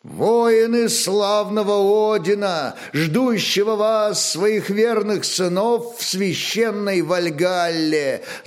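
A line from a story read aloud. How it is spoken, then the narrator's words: Chanting. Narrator (Russian): заговорил нараспев Аскальд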